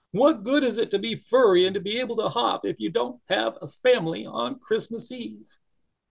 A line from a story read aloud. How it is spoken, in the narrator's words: Barrington cried and cried